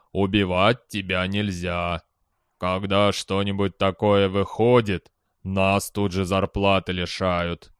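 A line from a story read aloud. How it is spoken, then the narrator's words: Gloomy. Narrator (Russian): мрачно сказал Марена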